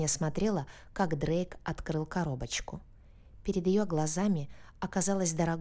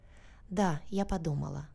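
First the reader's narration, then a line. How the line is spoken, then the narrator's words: Nervous breathy girl. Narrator (Russian): нервно выдохнула девушка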